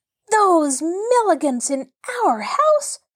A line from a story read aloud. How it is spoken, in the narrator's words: cried Mabel